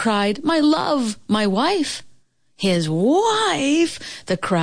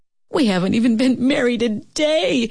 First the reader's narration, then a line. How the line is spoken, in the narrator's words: he sobbed